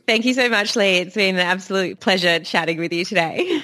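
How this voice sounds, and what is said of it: Australian accent. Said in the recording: “Don't you just love that Australian accent?”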